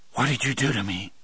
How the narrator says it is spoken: I whispered

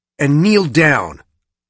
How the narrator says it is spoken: said in my most commanding voice

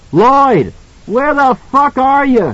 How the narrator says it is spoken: he screamed

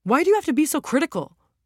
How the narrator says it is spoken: Roe snapped at her

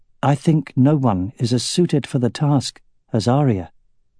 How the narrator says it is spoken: Aragorn said in a calm voice

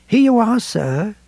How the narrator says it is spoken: said in a courteous voice, utterly unlike the tone in which she had first addressed him

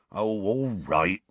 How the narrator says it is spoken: Hagrid said in a resigned voice

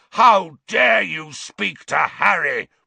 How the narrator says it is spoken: roared Black

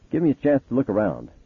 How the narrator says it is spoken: Charity said sharply

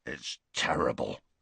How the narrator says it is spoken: growled Hagrid into his beard

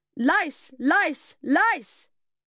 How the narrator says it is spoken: yelled at the top of my voice

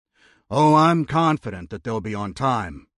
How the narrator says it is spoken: Jonathan said with a wry chuckle

